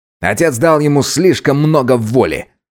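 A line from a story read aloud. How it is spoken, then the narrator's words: Angry. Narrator (Russian): зло сказал Керим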